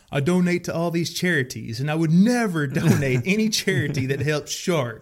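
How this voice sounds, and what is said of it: Imitates another person's voice. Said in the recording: “That's a good Trump impression ... Well, I don't think it was that good, but I did my best ... Yeah, that's pretty good.”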